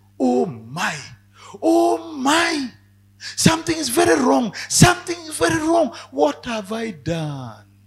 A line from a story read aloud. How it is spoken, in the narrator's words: He cried out and said